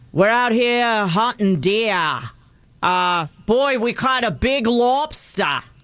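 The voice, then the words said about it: Put-on Maine accent. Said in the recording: “Maine accent”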